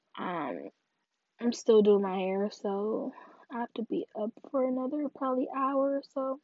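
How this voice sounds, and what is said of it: Tired-sounding voice. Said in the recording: “I'm getting tired, as you can probably hear in my voice.”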